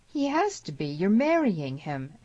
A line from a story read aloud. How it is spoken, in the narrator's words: exclaimed Cameron